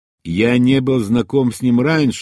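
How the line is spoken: Plain. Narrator (Russian): ответил я

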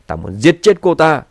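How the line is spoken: Loud angry voice. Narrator (Vietnamese): Tề Thiên Uy lớn tiếng giống giận

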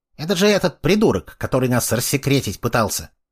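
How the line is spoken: Little girl snorting. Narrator (Russian): Его маленькая сестрица хмыкнула

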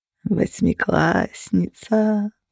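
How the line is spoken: Purring. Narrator (Russian): промурлыкал Феникс

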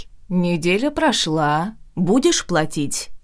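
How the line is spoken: Snide question. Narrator (Russian): Ехидно поинтересовалась

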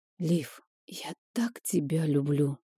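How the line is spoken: Whispered. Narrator (Russian): прошептал Рик

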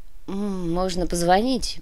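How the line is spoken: Young man grumbling. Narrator (Russian): проворчал молодой наемник

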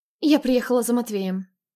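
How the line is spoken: Calm. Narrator (Russian): спокойно произнесла она

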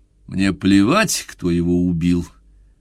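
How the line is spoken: Harsh, curt retort. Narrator (Russian): Жестко, если не грубо, отрезал пианист

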